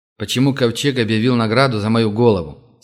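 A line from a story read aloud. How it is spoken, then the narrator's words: Plain. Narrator (Russian): спросил он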